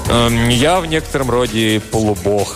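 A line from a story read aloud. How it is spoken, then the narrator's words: Plain. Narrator (Russian): ответила аллегория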